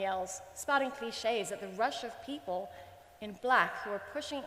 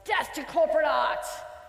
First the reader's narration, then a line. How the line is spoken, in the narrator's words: Emily ... laughs scornfully